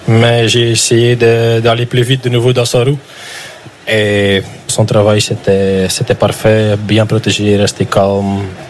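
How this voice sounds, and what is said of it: Flemish-accented French. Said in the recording (French): “l'accent qu'on adore, un accent flamand”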